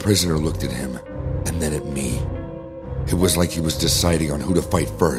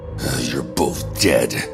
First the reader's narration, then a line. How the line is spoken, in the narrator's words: he grumbled